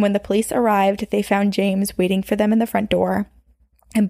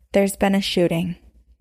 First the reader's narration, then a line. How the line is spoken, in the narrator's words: he said in a very calm voice